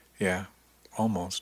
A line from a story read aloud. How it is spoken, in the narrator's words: he said quietly